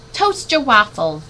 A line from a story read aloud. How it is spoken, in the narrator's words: Dad yelled louder